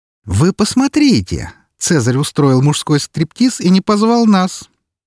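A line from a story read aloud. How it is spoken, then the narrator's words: Mock-indignant exclamation. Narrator (Russian): С притворным возмущением воскликнула Валькирия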